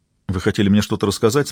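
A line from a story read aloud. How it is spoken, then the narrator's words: Plain. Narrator (Russian): спросил Габриэль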